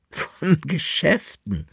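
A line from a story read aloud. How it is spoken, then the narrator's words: Lady laughing. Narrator (German): lachte die Dame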